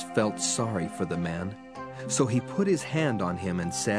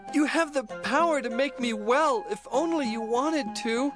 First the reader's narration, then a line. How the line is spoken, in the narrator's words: He begged